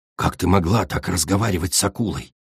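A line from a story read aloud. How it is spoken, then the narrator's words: Quiet hiss. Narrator (Russian): тихонько прошипел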